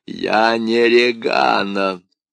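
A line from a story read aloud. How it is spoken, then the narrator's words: Deep bass voice. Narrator (Russian): Басом откликнулся голос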